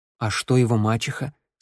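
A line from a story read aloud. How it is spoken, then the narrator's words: Plain. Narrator (Russian): спросил Тео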